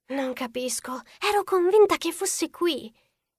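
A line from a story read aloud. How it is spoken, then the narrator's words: Whisper. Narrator (Italian): disse Ellie in un sussurro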